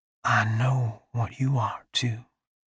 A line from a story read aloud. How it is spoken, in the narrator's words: she whispers